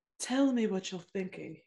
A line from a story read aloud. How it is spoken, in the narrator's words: he murmured